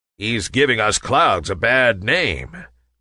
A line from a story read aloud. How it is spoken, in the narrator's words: growled a big, burly cloud